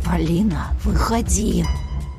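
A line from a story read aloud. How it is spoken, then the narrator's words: Angry hiss. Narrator (Russian): прошипел злой голос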